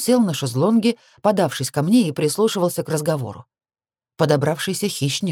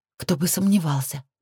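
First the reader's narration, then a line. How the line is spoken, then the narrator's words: Muttered. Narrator (Russian): Пробормотала я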